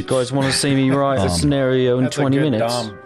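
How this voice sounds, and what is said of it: Good impression of Dom. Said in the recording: “That's a good Dom impression.”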